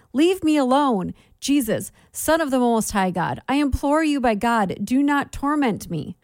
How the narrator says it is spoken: Then he cried out with a loud voice

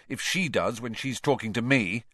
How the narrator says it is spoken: said Harry bitterly

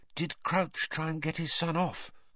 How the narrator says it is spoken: Hermione whispered

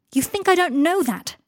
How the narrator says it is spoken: cried Harry

